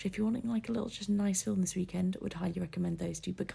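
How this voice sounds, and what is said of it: Rough, groggy voice. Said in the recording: “my voice has been a bit gross”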